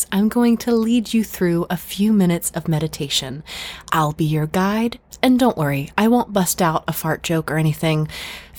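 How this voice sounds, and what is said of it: Soft calming meditation voice. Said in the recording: “in my nice calming voice”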